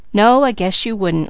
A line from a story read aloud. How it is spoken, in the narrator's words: laughed Mickey